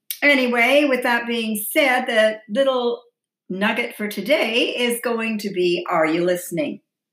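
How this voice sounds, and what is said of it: Hoarse voice. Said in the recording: “I am taking a lot of puffers, which really affects my voice big time. It really makes it very hoarse.”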